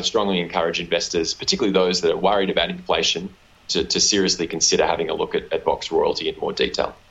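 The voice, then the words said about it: Australian accent. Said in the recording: “why is your accent so strange ... my unfortunate Australian accent”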